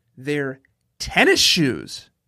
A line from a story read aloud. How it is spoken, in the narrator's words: shouted back